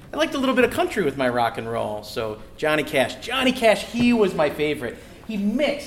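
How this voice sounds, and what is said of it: Usual voice. Nothing is said of it.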